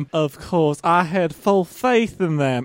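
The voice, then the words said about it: Put-on Southern accent. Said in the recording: “developing a southern accent”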